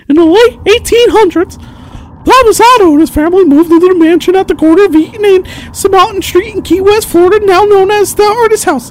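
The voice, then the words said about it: Mickey Mouse cartoon voice. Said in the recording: “I'm going to read it in a Mickey Mouse voice for like one sentence.”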